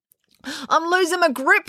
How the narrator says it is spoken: wailed Finn

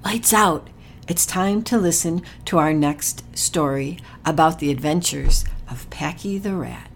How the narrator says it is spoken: their mom whispered

